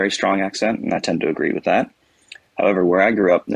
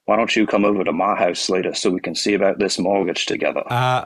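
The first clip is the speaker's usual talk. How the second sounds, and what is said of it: Put-on older regional local accent. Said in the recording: “now I'll do the accent that is common for those older folks ... a very unique accent that you don't hear very often outside that area”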